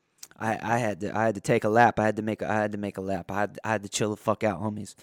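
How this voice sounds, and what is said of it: Worn-out, fading voice. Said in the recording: “my voice is gone. My voice is leaving. I feel exhausted already.”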